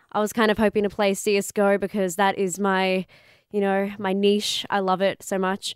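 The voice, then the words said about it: Congested, nasal sick voice. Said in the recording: “sniffling and coughing right now ... in my nasal voice ... I probably sound really attractive right now”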